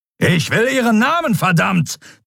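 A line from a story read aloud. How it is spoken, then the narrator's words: Thundering. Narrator (German): donnerte Telios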